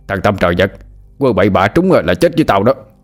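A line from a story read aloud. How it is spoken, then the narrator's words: Shouting. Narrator (Vietnamese): Hai Đèn quát lên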